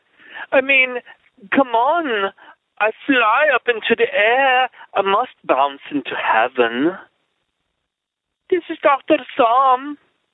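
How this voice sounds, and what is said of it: Weird mixed Welsh-Scottish-Hungarian-Dutch accent. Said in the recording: “weird Welsh, Scottish, Hungarian, Dutch accented comment”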